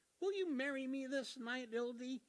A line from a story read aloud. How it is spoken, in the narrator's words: asked cheerfully